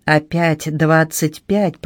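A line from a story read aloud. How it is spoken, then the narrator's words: Growled. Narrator (Russian): прорычал Питер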